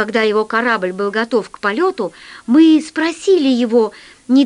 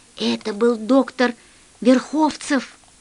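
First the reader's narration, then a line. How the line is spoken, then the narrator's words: Whisper. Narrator (Russian): прошептала Алиса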